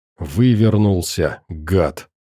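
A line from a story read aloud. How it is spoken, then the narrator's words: Hiss. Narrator (Russian): прошипела Алиса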